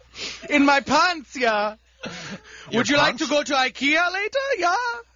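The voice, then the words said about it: Put-on Swedish accent. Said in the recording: “Johnny Sweden ... Swedish? ... Man of a Thousand Accents”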